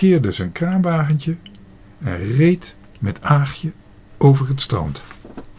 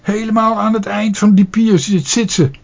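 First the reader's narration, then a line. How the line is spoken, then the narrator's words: Called out. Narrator (Dutch): riep Karel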